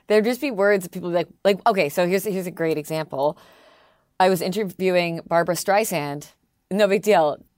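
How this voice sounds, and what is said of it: Strong Canadian accent. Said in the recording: “I didn't realize how strong my accent was ... Are you Canadian?”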